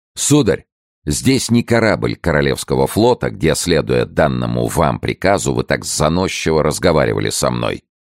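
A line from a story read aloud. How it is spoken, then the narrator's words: Sharp. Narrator (Russian): Д'Артаньян резко произнес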